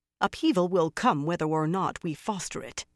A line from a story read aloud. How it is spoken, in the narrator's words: the other sister said firmly